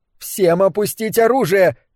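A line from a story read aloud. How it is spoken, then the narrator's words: Shouting. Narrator (Russian): крикнула Хаттер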